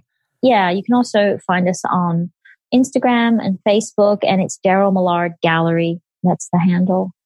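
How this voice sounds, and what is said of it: Speaks with a noticeable accent. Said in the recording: “my accent doesn't mess up the words”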